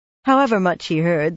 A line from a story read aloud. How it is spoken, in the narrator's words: the pretty boy laughed with incredulous disbelief